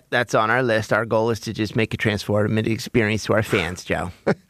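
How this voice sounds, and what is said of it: Josh Harris impression. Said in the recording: “Really good as a Josh Harris impersonator.”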